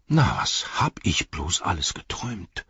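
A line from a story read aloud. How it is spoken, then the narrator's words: Murmur. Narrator (German): murmelte er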